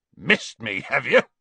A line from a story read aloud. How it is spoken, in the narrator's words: snorted Hagrid